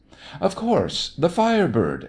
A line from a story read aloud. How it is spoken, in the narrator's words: exclaimed the little man